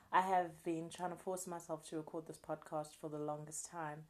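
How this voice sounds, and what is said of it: Slightly rusty voice. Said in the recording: “my voice is a little bit rusty”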